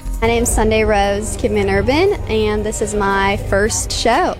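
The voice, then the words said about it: Sweet Southern-Australian hybrid twang. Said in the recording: “Sweet little twang in her voice ... It's like a Southern Aussie hybrid”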